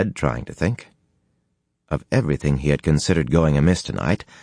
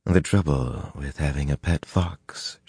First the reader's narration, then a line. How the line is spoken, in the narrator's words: she murmured